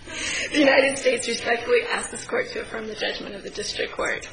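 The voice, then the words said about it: Strained, fading voice. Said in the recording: “I'm losing my voice”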